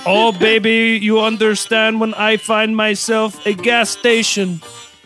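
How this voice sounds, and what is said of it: Attempted Indian accent. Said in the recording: “What is that accent? ... I immediately see Italian in my head. I got to work on my Indian accent.”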